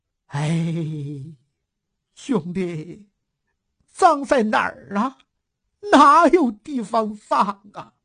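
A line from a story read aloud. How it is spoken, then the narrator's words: Woman muttering, then sobbing. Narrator (Chinese): 骨瘦如柴的大嫂自言自语，说完呜呜地哭了起来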